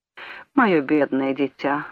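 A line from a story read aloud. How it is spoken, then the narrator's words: Comic sigh. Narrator (Russian): вздохнул он комично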